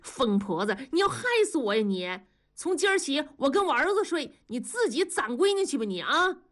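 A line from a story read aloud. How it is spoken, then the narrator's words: Shouting. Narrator (Chinese): 大庄喊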